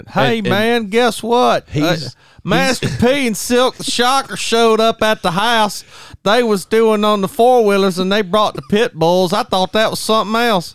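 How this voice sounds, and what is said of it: Old Southern accent imitation. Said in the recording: “that old Southern accent ... You're not far off from his accent.”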